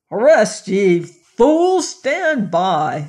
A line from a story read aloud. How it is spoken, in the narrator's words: roared